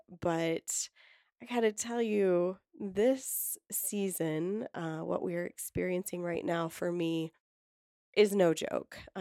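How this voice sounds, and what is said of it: Sick-sounding voice. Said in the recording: “as you can hear in my voice, I've definitely been impacted, whether by a virus, germs”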